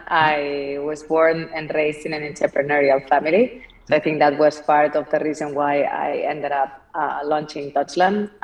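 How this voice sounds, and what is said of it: Spanish accent. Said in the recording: “as you can tell from my accent, I'm not from here. I'm from Barcelona.”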